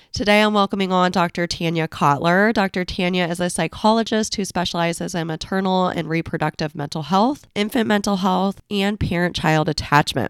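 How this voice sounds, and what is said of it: Congested, slightly rough voice. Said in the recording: “I have a little bit of a cold, so I'm sounding a little yucky.”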